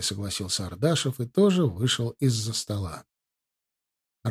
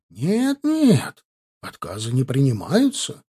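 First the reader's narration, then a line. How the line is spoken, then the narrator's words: Heated exclamation. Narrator (Russian): горячо воскликнул Ленц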